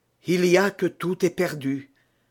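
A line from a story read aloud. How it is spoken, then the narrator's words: Frightened exclamation. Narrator (French): s'écria Buckingham en devenant pâle comme un trépassé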